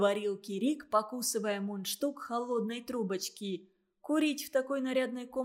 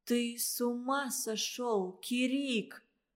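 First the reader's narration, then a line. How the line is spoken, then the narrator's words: Strangled voice. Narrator (Russian): сдавленным голосом произнесла Валентина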